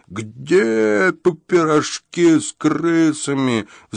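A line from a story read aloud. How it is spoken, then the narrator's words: Furious roar. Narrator (Russian): взревел папаша, весь побагровел от ярости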